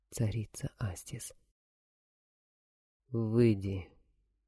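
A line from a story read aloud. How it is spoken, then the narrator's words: Muffled, terrified, teeth chattering. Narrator (Russian): Весь трепеща и щелкая зубами, с глазами побелевшими от страха, молодой воин уронил глухо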